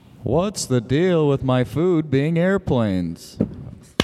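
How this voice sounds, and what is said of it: Baby Jerry Seinfeld impression. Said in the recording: “It's an impression of baby Jerry Seinfeld.”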